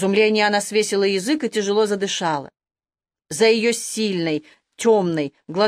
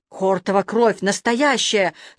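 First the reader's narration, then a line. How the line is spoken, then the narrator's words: Disbelieving breathless exclamation. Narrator (Russian): словно не веря своим глазам, выдохнул балабан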